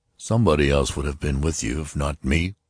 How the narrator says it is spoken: Klaus muttered

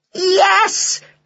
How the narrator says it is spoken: they shouted

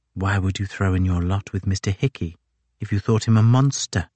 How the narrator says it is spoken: whispered in the dark

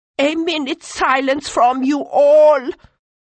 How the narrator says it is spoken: cried the myriad

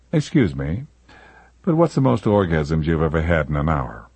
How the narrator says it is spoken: smiling that sheepish yet wolfish smile, and ask her in a soft voice

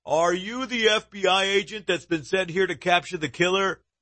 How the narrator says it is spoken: shout

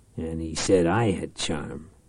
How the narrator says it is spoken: Reich muttered

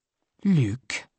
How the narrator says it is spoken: she frowned solemnly

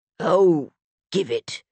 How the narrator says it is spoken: Bjorn grumbled

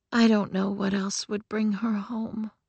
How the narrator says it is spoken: Uriel whispered

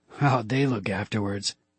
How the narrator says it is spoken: He asked with a chuckle

